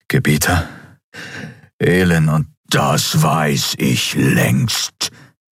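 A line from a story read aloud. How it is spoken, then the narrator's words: Emperor's thundering voice. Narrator (German): donnerte der Kaiser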